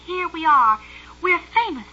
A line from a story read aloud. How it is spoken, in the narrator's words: he cried